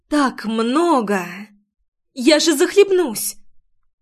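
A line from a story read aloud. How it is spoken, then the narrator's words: Frightened. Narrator (Russian): Испуганно озвучила я свою мысль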